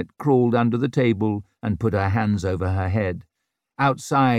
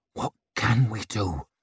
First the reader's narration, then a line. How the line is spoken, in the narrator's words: muttered at her